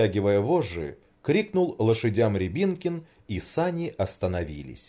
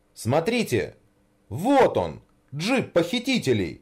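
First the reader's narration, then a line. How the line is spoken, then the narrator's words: Exclamation. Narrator (Russian): воскликнул Рябинкин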